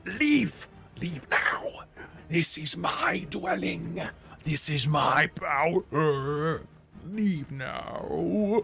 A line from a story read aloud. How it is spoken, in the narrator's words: a snarl as this green one says